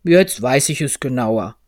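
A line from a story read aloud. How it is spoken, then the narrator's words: Said in a gruff voice. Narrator (German): sagte eine Brummstimme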